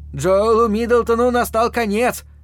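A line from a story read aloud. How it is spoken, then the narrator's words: Loud proclamation. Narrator (Russian): громко возвещал он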